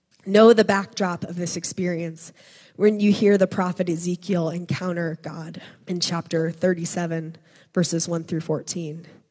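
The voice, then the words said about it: Dry, strained voice. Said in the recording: “my voice is kind of dry this morning”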